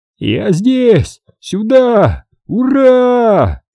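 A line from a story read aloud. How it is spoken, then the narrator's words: Joyful breathless yelling. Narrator (Russian): орал сталкер, откровенно радуясь и задыхаясь от ветра и счастья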